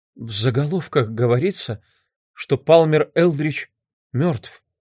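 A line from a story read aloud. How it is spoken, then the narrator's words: Whispered. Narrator (Russian): прошептала мисс Фьюгейт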